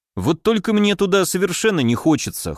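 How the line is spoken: Wry snort. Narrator (Russian): хмыкнул я

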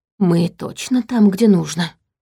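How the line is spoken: Whispered question. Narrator (Russian): шепотом спросил Черим

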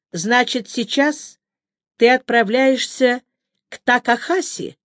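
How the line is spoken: Plain. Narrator (Russian): спросила я

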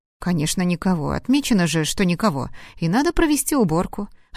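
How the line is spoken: Plain, maid. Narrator (Russian): ответила первая горничная

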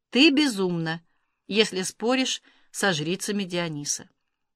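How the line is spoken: Breathless whisper in ear. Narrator (Russian): задыхаясь, прошептал ей на ухо

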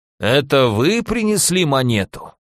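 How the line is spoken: Creaky voice question. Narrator (Russian): спросил скрипучим голосом

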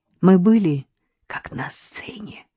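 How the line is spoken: Whisper. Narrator (Russian): прошептала Надежда

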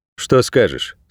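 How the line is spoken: Plain. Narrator (Russian): спросил перекидыш

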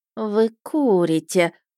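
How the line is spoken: Displeased drawl. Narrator (Russian): протянула она недовольно

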